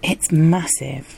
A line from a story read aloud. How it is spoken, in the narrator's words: she gasped